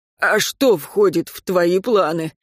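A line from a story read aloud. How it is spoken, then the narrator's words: Hoarse rasp. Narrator (Russian): прохрипел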